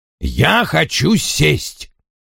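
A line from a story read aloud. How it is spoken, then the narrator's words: Firm. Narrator (Russian): твердым голосом повторил Вульф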